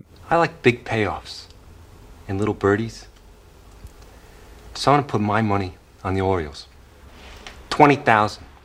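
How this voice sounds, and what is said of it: 1920s wise guy Jersey accent. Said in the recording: “accent ... It's like 20s wise guy mixed ... trying to do a Jersey accent”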